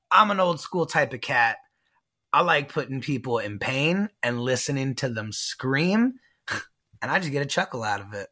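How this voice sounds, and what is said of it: Southern, New Orleans-like accent. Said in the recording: “this accent that you have ... You got some kind of Gambit, New Orleans type of something going on with you, man. Where is this accent”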